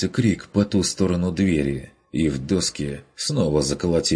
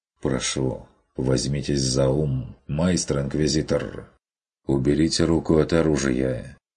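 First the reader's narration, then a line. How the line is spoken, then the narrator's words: Calm. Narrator (Russian): спокойно произнес он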